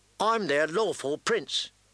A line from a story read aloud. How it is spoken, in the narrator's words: Theon said stiffly